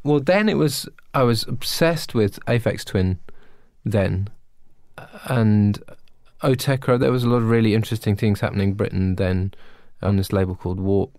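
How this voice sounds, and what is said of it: Non-American accent. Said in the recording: “with your accent, that could have been any one of four words ... say it like we say it here in the United States”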